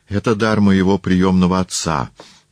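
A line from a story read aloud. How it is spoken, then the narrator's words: Joyful. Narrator (Russian): радостно заговорил Публий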